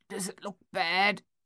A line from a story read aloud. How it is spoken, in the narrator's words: Thaddeus asked, his voice thick and halting